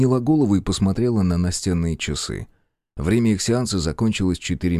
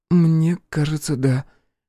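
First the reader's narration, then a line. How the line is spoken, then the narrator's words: Uncertain. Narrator (Russian): неуверенно ответила Алиса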